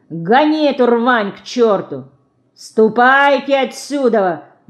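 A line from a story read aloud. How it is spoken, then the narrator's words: Janitor shouting. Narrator (Russian): закричал дворник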